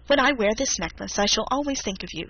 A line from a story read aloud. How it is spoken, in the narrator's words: said she